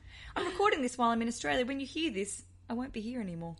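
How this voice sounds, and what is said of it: Australian accent. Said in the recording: “you hear the accent. I'm in Australian”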